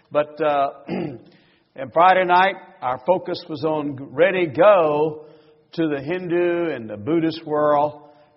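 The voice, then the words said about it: Southern US accent. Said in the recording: “I come from the southern part of the United States, and I know that we speak differently down there... my accent”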